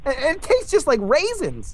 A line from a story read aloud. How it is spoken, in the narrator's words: Justin yells